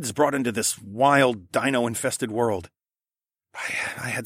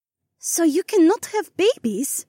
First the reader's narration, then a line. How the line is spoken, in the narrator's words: Edhara gasped